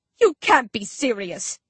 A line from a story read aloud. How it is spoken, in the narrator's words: Dan Dan howls